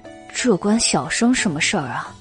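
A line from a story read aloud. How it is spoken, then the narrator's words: Muttering. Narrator (Chinese): 袁耀嘀咕道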